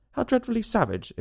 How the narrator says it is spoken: exclaimed Alice

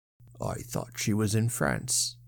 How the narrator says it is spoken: muttered Sir John with a curious downcast look

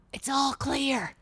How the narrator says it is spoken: he whispered

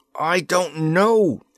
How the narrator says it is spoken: he shouted in reply

